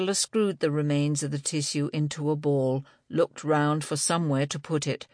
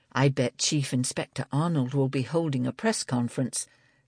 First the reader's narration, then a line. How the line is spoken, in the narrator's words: Libby murmured